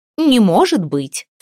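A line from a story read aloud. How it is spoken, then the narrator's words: Snorting. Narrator (Russian): фыркнула Бьярта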